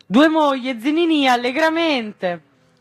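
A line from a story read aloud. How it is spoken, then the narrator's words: Shout. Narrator (Italian): Il grido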